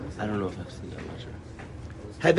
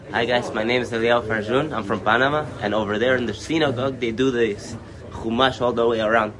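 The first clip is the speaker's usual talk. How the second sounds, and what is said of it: Put-on foreign accent. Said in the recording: “Do the accent”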